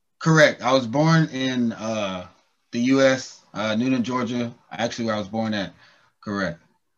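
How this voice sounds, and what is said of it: Mild Southern US accent. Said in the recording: “I can tell your accent. You're from Georgia, actually. ... Is it a southern accent? It's a southern accent? ... You're not so strong. Not so strong. Yeah. I can just hear it.”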